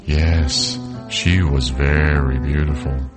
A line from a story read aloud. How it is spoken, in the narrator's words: the old woman said sadly